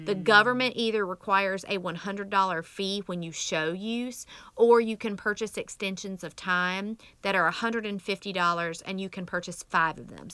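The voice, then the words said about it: Rural American country accent. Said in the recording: “my country accent”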